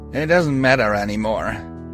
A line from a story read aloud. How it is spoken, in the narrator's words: he slurred